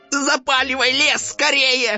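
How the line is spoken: Yelling monster head. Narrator (Russian): заорала правая голова центральной

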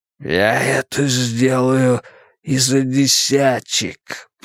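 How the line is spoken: Tramp's wheeze. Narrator (Russian): прохрипел бродяга

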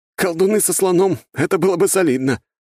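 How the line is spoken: Insistent, then loud laughter. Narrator (Russian): не унимался Лёшка и расхохотался вовсю

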